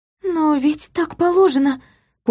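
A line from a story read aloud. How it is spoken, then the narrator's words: Confused stammer after pause. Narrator (Russian): После недолгой паузы растерянно пролепетала Илсе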